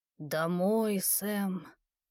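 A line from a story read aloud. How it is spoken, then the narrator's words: Barely audible creaky voice. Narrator (Russian): едва слышно скрипучий голос произнес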